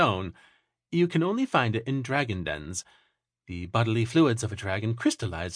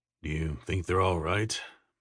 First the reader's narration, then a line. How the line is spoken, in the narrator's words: Belgrave murmured